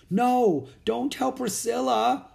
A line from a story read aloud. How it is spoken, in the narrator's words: moaned Jack